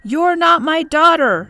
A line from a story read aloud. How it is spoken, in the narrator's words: screaming